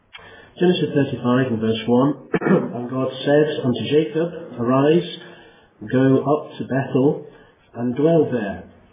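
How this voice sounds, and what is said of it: Weak, strained voice. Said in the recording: “my voice is not particularly strong this evening”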